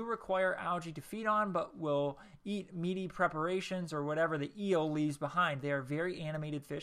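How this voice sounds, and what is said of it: Usual voice. Nothing is said of it.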